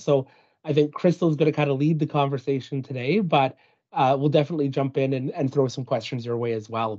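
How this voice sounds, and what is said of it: Slightly scratchy, hoarse voice. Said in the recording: “my voice is a little bit scratchier than normal.”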